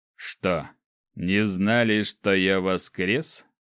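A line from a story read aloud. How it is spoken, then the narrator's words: Smirking grunt. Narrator (Russian): хмыкнул Ким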